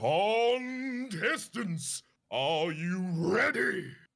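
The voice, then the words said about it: Deep character voice. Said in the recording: “A deep voice speaks from the darkness”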